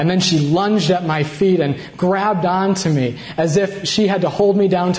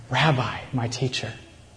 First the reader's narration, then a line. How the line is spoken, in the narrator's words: All she could do was whisper